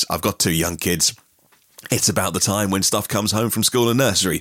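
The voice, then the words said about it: Hoarse, sick-sounding voice. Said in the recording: “As you can hear, I lost my voice. ... super sick”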